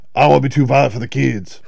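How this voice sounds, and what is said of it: Imitates another person's voice. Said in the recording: “I love that impersonation... Spot on”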